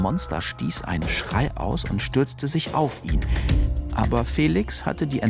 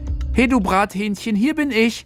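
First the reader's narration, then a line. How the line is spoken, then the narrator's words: Exuberant call. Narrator (German): Felix rief übermütig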